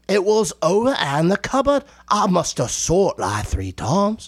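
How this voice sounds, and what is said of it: Put-on Cockney English accent. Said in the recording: “the idiot English English accent where, like, you know, they just don't know what they're talking about ... that's a Cockney accent ... that's a wonderful Cockney English accent”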